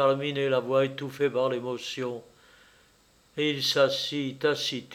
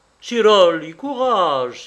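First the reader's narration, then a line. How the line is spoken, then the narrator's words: Exclaimed, farmer. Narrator (French): s'écria le fermier de Lobruno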